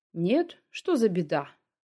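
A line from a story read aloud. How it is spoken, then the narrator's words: Feigned casual tone. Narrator (Russian): притворно небрежным тоном произнес Шилаев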